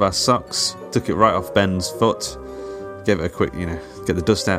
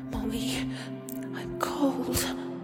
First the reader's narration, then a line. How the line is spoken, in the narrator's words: he whispered through chattering teeth